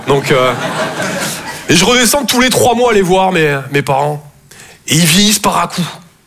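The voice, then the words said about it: Toulouse southern French accent. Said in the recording (French): “Je viens de Toulouse, à la base. Ouais, ça s'entend un peu, ouais. Mon accent ... Et apparemment, avec vous, ça va super.”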